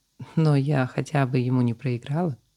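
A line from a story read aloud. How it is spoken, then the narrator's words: Very soft reply. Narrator (Russian): очень мягко ответила победительница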